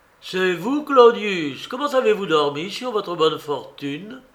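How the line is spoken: Pleasant resonant young man's shout. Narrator (French): cria d'une voix plaisante et bien timbrée un jeune homme

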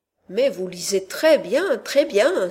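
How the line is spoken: Exclaiming. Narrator (French): s'écria M

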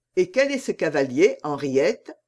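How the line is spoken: Plain. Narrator (French): demanda la reine

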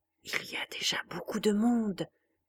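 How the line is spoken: Murmuring. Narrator (French): finit-elle par murmurer

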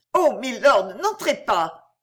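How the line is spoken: Terrified, embarrassed cry. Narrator (French): s'écrie Mariette avec l'expression de la terreur et de l'embarras

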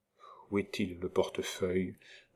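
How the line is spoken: Whispered question. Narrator (French): demanda tout bas Marguerite

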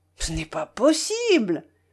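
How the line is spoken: Exclaimed. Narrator (French): s'écria Frédéric

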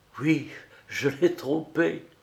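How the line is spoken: Frightened stammering. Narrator (French): Il sentit un frisson de glace qui lui courut jusque dans les os et bredouilla éperdu

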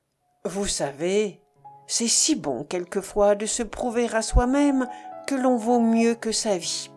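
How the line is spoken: Deep voice. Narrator (French): d'une voix profonde

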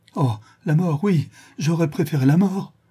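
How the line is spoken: Schoolmaster's exclamation. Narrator (French): s'écria le maître d'école

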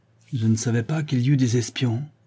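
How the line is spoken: Surprised murmur. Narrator (French): murmura le coquin surpris

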